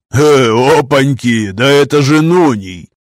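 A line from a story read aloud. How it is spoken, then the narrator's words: Laughing speech. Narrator (Russian): Засмеялся Газ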